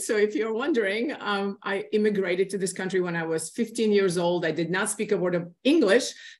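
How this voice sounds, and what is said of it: Non-native English accent. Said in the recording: “Obviously, you can hear my accent.”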